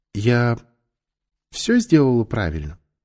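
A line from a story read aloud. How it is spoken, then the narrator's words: Gentle question. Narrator (Russian): ласково спросила она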